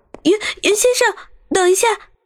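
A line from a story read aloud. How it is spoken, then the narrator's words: Sudden shout. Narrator (Chinese): 张俏佳突然追了出来，并喊道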